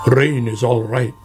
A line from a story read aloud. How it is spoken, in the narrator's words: grumbled Badger